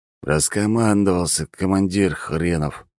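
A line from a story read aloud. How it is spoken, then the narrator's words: Grumbled. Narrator (Russian): буркнул Алекс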